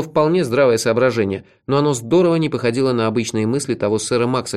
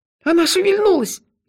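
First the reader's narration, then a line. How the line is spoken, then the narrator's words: Frightened young squeal. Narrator (Russian): испуганно взвизгнул какой-то молоденький паренек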